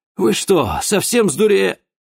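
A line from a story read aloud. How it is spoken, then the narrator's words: Furious breathy outburst, sorcerer. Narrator (Russian): Яростно выдохнул чернокнижец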